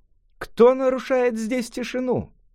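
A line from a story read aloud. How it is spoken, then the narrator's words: Youth shouting. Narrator (Russian): отрок крикнул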